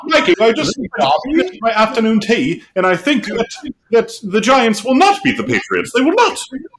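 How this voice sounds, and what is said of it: Ridiculous British accent, Dobby impression. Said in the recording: “ridiculous accent ... I thought I heard Dobby in there ... that was definitely Dobby ... Dobby has a British accent”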